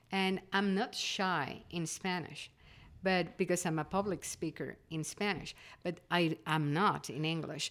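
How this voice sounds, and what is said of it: Non-native English accent, Spanish speaker. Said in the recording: “polish my accent so people will understand me clearly ... English is not my language and having with a different accent”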